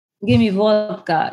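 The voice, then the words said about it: Put-on Russian/Eastern European accent. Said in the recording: “they sound exactly like that ... Russian dialect ... strip club Russian girl”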